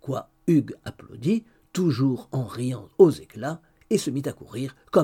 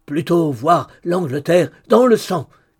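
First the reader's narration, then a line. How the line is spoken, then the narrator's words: Shouted by fearsome leader. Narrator (French): cria son terrible chef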